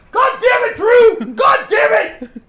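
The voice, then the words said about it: Imitates another person's voice, shouting angrily. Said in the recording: “I can do an imitation of your dad with you growing up. ... That's absolutely perfect.”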